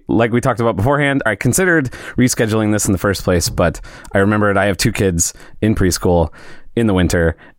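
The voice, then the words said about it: Hoarse, congested voice from a cold. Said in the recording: “apologize for my voice ... hearing my voice with a little bit of a cool, cold voice ... it sounds terrible to everybody else”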